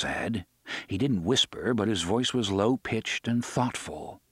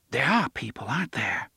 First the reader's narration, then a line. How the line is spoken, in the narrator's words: she whispered